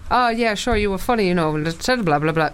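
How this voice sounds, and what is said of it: Bad put-on Irish accent. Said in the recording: “Terrible Irish accent”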